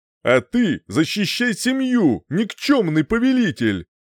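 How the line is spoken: Shouted. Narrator (Russian): крикнул я

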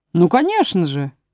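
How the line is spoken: Cheerful. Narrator (Russian): весело сказал Пустик-Дутик

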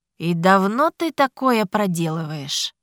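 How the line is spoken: Icy questioning voice. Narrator (Russian): Ледяным голосом поинтересовался Ричард

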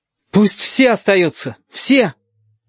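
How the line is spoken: Loud call from afar. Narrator (Russian): Галька еще издалека громко сказал

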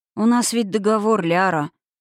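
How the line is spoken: Weary. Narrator (Russian): устало покачал головой Налсур

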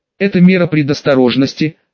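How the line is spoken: Cold interruption. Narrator (Russian): холодно перебил ее охотник

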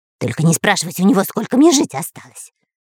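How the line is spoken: Hissed. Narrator (Russian): зашипел Дырка

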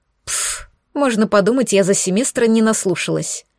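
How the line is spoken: Dismissive snort. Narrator (Russian): Фыркнула принцесса

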